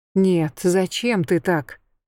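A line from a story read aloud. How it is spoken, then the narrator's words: Sighing. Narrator (Russian): Я вздохнула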